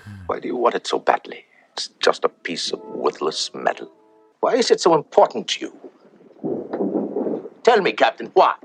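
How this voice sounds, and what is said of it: Put-on German accent. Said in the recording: “I'm doing a way better German accent ... I love doing a German accent. I do it when I can.”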